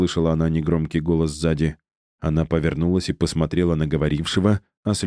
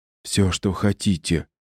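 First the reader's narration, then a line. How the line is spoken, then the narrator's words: Frenzied whisper. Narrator (Russian): исступленно прошептала Мария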